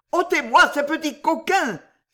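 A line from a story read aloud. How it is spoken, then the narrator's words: Exclaimed. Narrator (French): s'écria M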